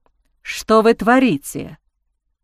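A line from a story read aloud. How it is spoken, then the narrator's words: Hissing. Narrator (Russian): Прошипел он ей прямо в лицо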